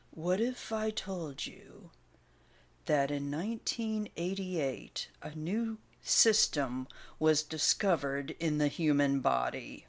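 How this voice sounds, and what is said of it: Matrix movie impression. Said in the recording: “my Matrix imitation”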